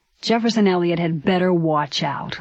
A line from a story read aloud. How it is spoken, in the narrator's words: Louis grumbled